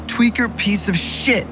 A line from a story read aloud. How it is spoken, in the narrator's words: screamed